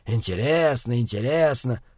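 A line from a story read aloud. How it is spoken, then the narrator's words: Muttered into mustache. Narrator (Russian): пробурчал он в усы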